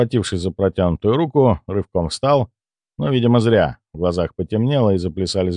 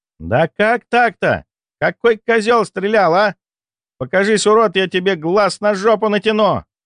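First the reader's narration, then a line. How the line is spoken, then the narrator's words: Yelled angrily. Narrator (Russian): Заорала шпилька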